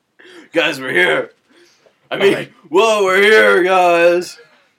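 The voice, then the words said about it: Sudden raspy voice change. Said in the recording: “did your voice just change really quickly? ... a bit of a rasp”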